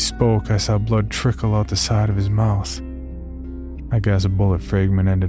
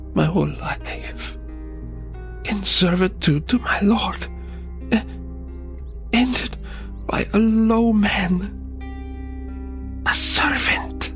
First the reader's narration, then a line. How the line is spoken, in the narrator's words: In a weak voice, he said